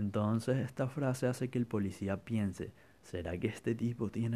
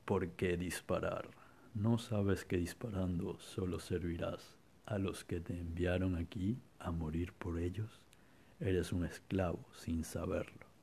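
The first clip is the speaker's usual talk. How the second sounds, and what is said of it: Villain voice. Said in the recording (Spanish): “con esa voz, tal cual ... voz de malo”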